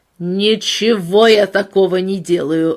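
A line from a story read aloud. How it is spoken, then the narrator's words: Angry bark. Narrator (Russian): рявкнул Кинг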